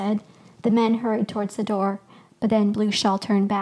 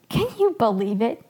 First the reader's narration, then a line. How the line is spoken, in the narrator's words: He laughed